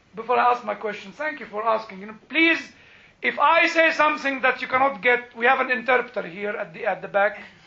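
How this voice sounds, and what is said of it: Non-American foreign accent. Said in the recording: “Mr. Walter understands my accent very well. And he shouts and repeats them in a very nice American ... it did not change my accent”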